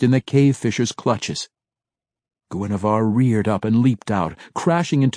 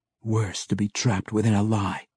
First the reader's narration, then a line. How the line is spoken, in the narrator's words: he whispered absently